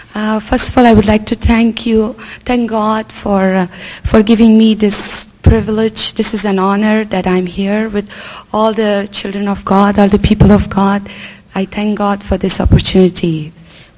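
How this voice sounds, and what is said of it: Low, weak voice. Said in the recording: “my voice is kind of low, so please bear with me. I'll try my best to speak loud.”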